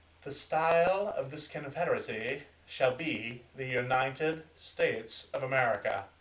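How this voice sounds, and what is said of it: Put-on accent. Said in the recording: “Why I did that accent? I don't know. It just felt right.”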